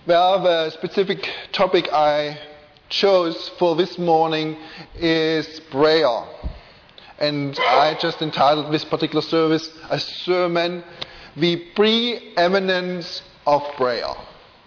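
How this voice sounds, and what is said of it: German accent in English. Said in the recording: “I do speak with a funny accent ... I can't get rid of my German accent.”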